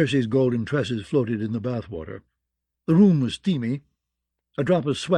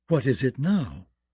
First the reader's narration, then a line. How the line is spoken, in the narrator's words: she said in a dangerously soft voice